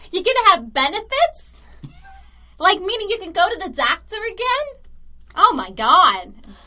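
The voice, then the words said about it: Imitated Staten Island accent. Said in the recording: “I'm loving all these voices ... her Staten Island accent”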